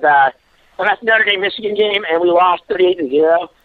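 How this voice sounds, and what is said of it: Strained voice. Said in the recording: “the reason my voice is so strained is because ... I screamed”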